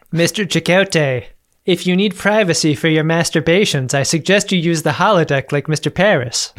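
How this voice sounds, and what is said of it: Bad Captain Janeway impression. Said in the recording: “your Janeway is getting worse ... it's awful, and I should retire my Janeway impression. It's so bad.”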